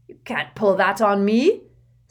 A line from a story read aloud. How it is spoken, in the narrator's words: snarled Uncle Vernon